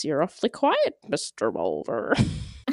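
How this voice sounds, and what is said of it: Imitates a TV character's voice. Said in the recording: “10 out of 10 for the impersonation.”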